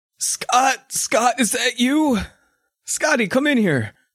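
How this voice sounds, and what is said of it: Old man character voice. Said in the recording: “Grandpa, you sound so old!”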